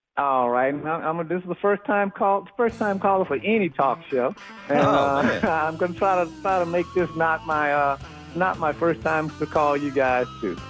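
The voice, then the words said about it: Baton Rouge Louisiana accent. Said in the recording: “I love hearing your Baton Rouge accent”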